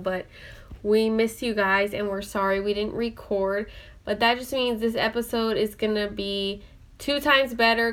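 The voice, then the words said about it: Sniffly, weird sick voice. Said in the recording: “if you hear me sniffling in the phone or the recording, that's why. I probably have like this weird voice right now”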